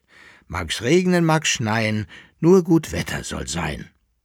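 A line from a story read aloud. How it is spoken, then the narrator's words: Calling out. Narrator (German): rief der Sternberg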